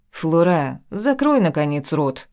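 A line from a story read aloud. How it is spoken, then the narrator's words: Calm, nervous awkward laugh. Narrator (Russian): Гэб спокойно продолжил, пряча нервозность за нелепым смехом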